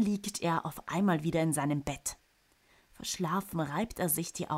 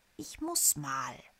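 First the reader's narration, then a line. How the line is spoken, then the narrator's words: Murmuring. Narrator (German): murmelt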